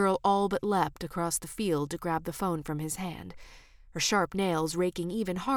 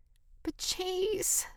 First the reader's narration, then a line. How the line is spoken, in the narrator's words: the girl whined